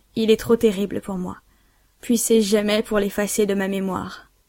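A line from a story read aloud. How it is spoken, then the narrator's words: Deep sigh. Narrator (French): Elle soupira profondément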